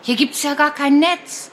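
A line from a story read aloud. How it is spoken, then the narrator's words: Called out. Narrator (German): ruft Martha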